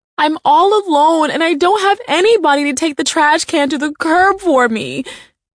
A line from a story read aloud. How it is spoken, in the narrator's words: whined, wailing into the phone